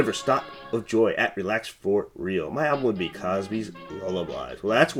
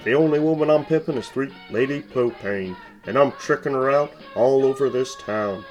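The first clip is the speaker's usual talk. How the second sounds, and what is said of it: Hank Hill cartoon character voice. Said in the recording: “my Hank impression”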